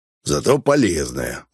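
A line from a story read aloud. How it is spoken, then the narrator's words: Grumbling mutter. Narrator (Russian): буркнул мошенник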